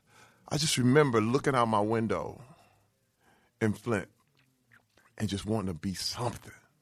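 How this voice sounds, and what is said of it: Emotional, moved voice. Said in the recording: “I'm actually getting emotional right now”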